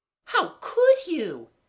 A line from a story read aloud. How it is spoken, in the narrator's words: exclaimed Amanda